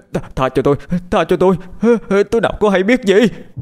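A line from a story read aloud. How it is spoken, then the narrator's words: Terrified screaming. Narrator (Vietnamese): Gấu hét lên một tiếng sợ hãi, miệng anh gào lên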